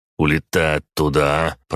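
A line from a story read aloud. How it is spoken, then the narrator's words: Grumbling. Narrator (Russian): проворчал я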